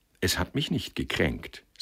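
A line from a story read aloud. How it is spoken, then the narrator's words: Cold. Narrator (German): sagte sie kalt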